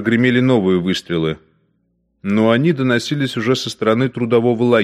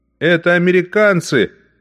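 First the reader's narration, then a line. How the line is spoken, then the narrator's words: Soldier shouting. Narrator (Russian): закричал один эсэсовец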